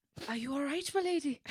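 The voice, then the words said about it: Put-on Irish-sounding accent. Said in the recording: “I'm going to go Scottish ... I was just trying to decipher if you were speaking in an Irish accent ... Yeah, I think I'm Irish.”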